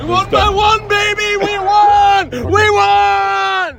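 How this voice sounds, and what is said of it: Sarcastic exaggerated cheering. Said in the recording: “being sarcastic”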